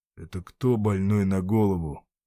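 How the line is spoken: Quiet question. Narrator (Russian): тихо спросил Семен

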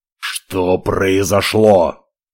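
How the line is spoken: Growl. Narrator (Russian): зарычал Ивар

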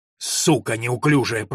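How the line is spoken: Growl. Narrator (Russian): прорычал он

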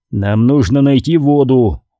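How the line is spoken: Growled. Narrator (Russian): прорычал он

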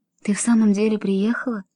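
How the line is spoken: Whispering. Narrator (Russian): прошептала

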